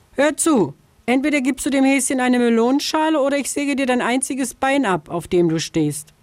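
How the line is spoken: Calling from afar. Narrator (German): Schon von Weitem rief sie der Vogelscheuche zu

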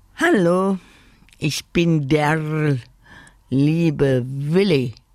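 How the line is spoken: Croak. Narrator (German): krächzte er

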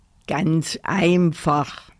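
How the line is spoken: Teddy bear grumbling. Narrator (German): brummte der Teddy

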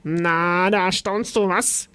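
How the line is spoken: Grunting and burping. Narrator (German): grunzte es und rülpste

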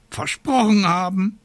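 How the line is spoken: Raven croaking. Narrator (German): krächzte der Rabe Abraxas

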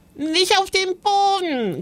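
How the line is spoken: Shrieking. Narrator (German): kreischte Joris

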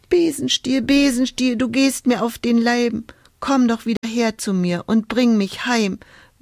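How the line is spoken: Whimpering. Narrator (German): wimmerte Hulda

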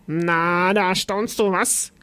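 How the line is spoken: Grunting, then burping. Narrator (German): grunzte es und rülpste

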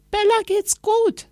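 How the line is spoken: Calling downward. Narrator (German): rief Anna nach unten

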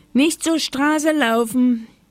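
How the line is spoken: Grandmother calling from window. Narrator (German): rief Oma Huber vom Fenster

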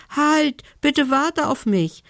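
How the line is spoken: Elf calling after someone. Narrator (German): rief ihm die Elfe hinterher

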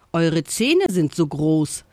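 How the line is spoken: Said with loud giggling. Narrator (German): sagte der Affe und kicherte laut

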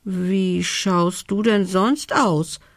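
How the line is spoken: Hesitant question. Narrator (German): fragte er zögernd

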